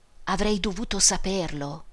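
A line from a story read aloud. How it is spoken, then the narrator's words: Murmur. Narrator (Italian): mormorò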